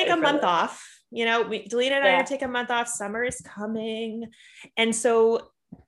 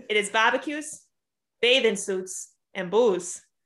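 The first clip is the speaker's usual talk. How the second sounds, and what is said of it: Exaggerated Boston accent. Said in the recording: “I'm going to do it in my Boston accent ... Is this a legit Boston accent? ... really overdoing it?”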